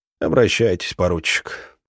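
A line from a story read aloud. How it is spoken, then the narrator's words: Tired permission. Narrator (Russian): разрешил Хрулев устало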